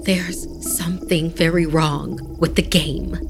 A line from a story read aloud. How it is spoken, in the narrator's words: she said in a hushed tone